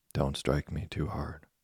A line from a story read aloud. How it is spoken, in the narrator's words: a very tiny voice begging him gently